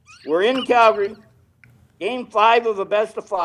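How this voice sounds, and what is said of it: Usual voice. Nothing is said of it.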